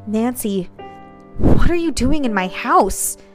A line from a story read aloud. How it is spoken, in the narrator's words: Candace asked, her voice shaking